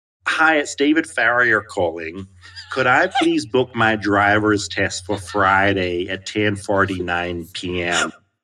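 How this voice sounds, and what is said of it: Poor put-on American accent. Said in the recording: “I've tried an American accent before and it didn't go well.”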